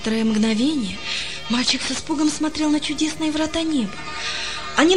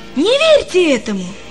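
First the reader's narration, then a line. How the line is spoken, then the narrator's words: Sudden exclamation. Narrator (Russian): воскликнул он вдруг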